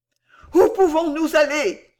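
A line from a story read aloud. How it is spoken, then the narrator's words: Troubled group outcry. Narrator (French): s'écrièrent les Pickwickiens, pleins de troubles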